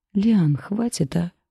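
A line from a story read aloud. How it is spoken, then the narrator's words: Weary dragon. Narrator (Russian): устало произнес дракон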